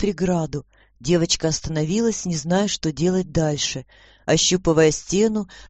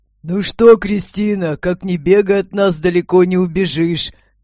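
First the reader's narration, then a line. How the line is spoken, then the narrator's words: Booming voice. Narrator (Russian): Прогремел голос господина Абрамса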